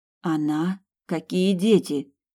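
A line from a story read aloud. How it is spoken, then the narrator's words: Strained forced calm. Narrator (Russian): чуть было не закричала Сабина, но постаралась говорить спокойным голосом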